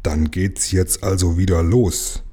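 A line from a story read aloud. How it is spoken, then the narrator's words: Grumbling. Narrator (German): brummte Lukas zu Jim gewandt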